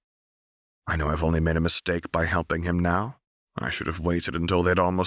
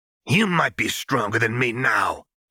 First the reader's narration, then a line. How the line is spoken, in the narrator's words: he snaps